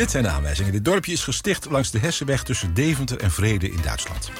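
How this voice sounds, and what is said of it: Usual voice. Nothing is said of it.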